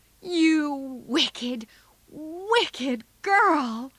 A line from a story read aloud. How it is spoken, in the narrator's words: cried Joe